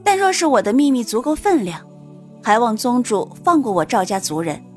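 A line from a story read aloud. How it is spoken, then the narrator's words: Calm, faintly smiling, stalling. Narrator (Chinese): 苏玲却淡淡一笑，反拖延道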